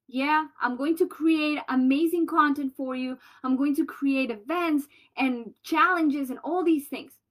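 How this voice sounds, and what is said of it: Colombian-accented English. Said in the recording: “my Colombian accent”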